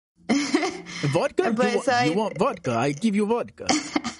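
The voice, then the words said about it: Put-on Russian accent. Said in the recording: “You had a really good Russian accent too.”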